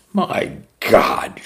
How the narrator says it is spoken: she sneered

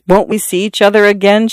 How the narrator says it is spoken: she said

